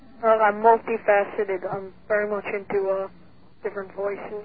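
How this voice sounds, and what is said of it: Caller speaking in a put-on accent. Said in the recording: “You sound like you have an accent this week.”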